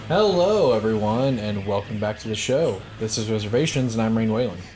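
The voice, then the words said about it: Monotone, bland delivery. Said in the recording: “just the way you did it was just so monotone and so bland.”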